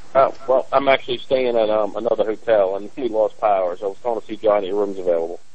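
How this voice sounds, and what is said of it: Louisiana accent. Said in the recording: “I detect a Louisiana accent there”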